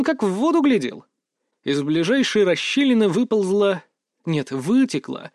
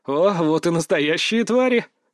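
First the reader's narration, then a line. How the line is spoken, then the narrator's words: Through gritted teeth. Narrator (Russian): процедил я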